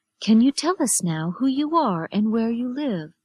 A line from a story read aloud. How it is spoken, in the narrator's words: the nurse asked